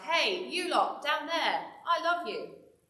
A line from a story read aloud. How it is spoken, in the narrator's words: shout